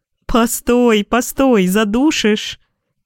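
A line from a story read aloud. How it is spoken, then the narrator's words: Laughing. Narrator (Russian): смеялась Вера Ивановна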